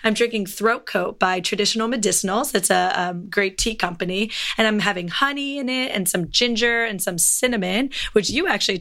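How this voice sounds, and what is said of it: Hoarse, nearly lost voice. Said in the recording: “this feels so good on my throat right now ... my voice is not here”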